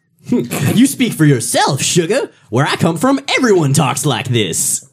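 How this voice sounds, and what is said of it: Exaggerated put-on Southern accent, Rogue. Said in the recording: “what kind of accent is that? It sounds ridiculous ... the south of the Canadian voice acting region ... that's the super Midwest accent ... I know how people talk where Rogue comes from”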